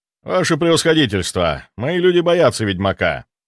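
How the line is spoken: Calm, confident voice. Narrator (Russian): спокойным, но уверенным голосом ответил он

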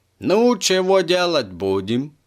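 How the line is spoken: Plain. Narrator (Russian): спросила та

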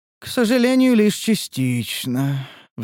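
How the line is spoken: Sorrowful sigh. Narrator (Russian): вздохнула Лия горестно

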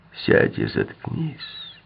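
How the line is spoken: Hoarse with anger. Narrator (Russian): посоветовал Крэмтор хриплым от злости голосом

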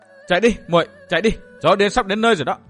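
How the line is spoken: Raised woman's voice. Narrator (Vietnamese): cô Thanh Tùng cũng cao giọng

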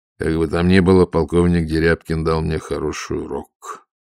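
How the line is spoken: Muffled. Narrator (Russian): глухо сказал Воронцов

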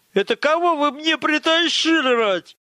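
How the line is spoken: Spluttering furious yell. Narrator (Russian): Заорал он, орошая слюной все углы кабинета

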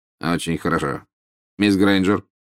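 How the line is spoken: Said curtly. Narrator (Russian): сказал отрывисто

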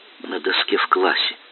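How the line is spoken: Quiet confession. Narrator (Russian): тихо призналась Лера

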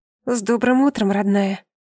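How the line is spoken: Forced out. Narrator (Russian): выдавила из себя

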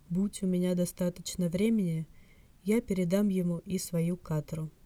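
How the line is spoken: Soft hologram voice. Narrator (Russian): мягко говорит голограмма

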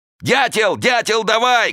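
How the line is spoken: Shouting. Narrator (Russian): кричал он

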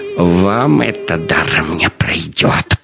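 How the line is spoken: Hiss. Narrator (Russian): прошипел он

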